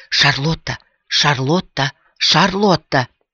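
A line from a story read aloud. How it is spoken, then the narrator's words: Insistent demanding whisper. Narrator (Russian): Настойчивый и требовательный шепот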